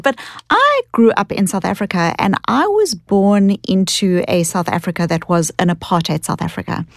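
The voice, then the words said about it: Australian-New Zealand-like accent. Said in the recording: “as you can hear from my accent ... I thought that was a Brooklyn accent ... It's like a kind of Australian, New Zealand combined accent.”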